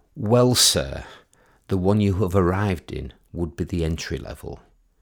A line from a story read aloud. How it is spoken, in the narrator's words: he said in a slow, superior drawl, accentuating the word entry